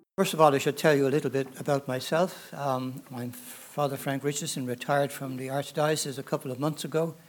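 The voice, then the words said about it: Irish accent. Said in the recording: “I'm from Ireland, as you probably gather from my accent. Not a Georgia one”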